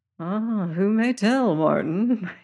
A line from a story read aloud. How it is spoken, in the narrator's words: sighed